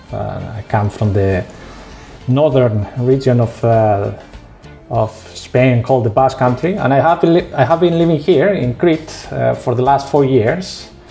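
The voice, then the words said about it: Spanish accent in English. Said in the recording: “You have probably noticed in my accent I am Spanish.”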